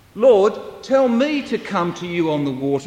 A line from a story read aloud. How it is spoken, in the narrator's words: said Peter